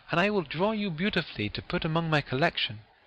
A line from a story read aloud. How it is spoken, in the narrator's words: cried he